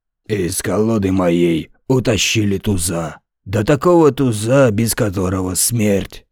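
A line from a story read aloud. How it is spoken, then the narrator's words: Hoarse singing voice. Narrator (Russian): захрипел голос Высоцкого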